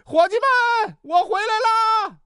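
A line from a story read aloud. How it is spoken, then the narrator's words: Shouting while knocking. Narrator (Chinese): 小涛发现自己没带宿舍钥匙，于是一边敲门一边喊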